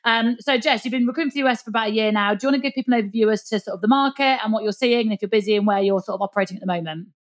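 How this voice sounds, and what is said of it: Northern English accent, fast speech. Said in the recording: “my Northern accent and my speed”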